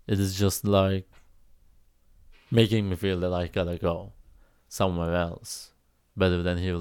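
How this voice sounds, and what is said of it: Creaky voice. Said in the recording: “I'm not crying, by the way. My voice is getting creaky.”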